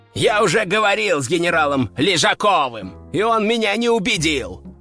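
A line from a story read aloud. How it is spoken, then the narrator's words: Growl. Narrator (Russian): рыкнул тот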